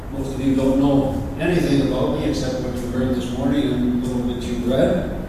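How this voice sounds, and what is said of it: Canadian English accent. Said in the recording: “You can tell by my accent, I'm Canadian, not an American.”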